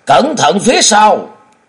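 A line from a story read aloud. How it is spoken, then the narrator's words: Shouted warning. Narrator (Vietnamese): Yến Sơn Nhất Quái kêu lên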